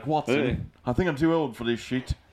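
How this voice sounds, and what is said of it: Put-on British accent. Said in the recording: “That was a really good British accent... It started off a little rocky, but I'm glad I landed it.”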